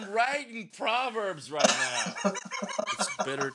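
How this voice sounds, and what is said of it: Usual voice. Nothing is said of it.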